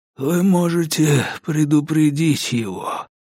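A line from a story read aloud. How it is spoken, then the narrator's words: Hoarse wheeze. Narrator (Russian): прохрипел Баррис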